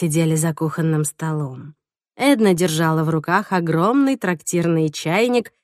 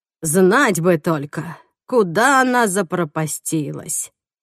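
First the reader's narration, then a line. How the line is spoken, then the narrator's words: Sighing. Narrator (Russian): вздохнула лиловая ведьма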